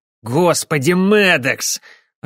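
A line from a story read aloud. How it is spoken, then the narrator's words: Irritated mutter. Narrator (Russian): раздраженно пробормотал О'Келли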